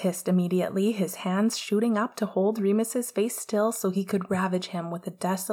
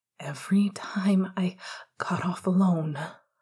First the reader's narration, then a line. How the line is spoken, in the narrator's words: Remus panted into his ear